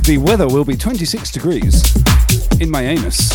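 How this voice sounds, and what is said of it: Exaggerated radio announcer voice. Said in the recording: “the quintessential radio voice”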